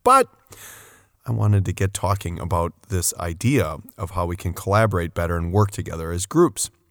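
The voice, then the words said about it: Raspy, congested voice. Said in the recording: “I've got a pretty solid cold going ... I sound raspy.”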